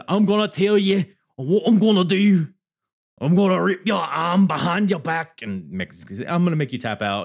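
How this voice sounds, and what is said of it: Put-on Scouse Liverpool accent. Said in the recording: “I'm working on my Liverpool accent, by the way. Scouse. I'm trying to become a Scouse here ... What the fuck was that accent?”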